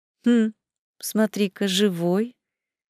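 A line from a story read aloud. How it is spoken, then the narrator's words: Pleased purr. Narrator (Russian): Довольным мурлыканьем откликнулась женщина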